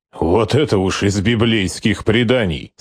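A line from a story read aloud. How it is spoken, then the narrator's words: Calm objection. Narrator (Russian): спокойно возразил Скорцени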